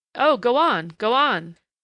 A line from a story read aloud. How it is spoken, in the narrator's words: Ryder exhorted bitterly